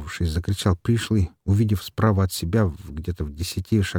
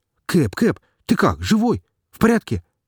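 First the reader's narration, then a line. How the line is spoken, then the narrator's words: Excited rapid chatter. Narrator (Russian): взволнованно тараторил пришлый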